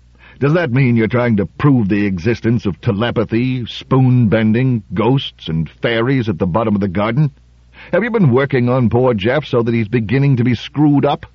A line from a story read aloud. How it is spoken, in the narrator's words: more loudly